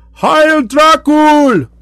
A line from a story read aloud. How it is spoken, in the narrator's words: they cried